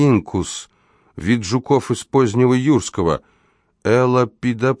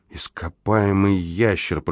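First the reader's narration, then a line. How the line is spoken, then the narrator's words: Whisper. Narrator (Russian): прошептала она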